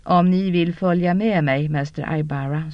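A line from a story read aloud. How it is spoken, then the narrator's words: Calm woman. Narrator (Swedish): sa kvinnan lugnt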